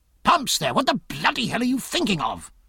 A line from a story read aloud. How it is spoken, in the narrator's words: cried Jack, but quite mildly